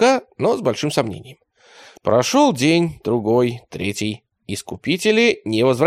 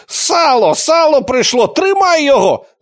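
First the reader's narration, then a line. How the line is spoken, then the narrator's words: Loud male yell. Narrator (Russian): заорал он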